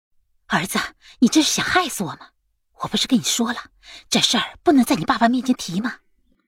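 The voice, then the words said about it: Quiet, hushed complaining. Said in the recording (Chinese): “小声的抱怨”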